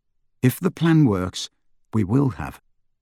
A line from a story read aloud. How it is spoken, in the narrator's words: Harry continued calmly